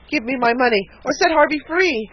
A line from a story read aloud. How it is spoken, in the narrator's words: cried the spinster in alarm